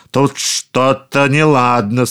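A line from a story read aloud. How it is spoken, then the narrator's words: Terrifying ogre voice. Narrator (Russian): сказал людоед страшным голосом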